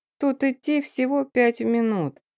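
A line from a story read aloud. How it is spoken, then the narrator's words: Sleepy mumble. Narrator (Russian): сонно пробубнила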